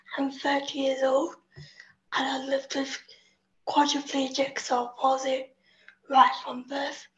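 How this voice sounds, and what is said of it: English accent. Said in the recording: “As you can tell by the accent, I'm English.”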